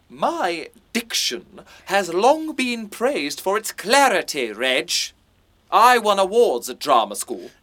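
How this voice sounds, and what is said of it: Very posh upper-class English accent. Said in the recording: “Your voice, it's not right. ... your accent. You're far too posh, mate.”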